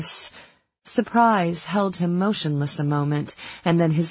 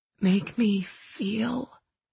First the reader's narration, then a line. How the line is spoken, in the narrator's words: I whispered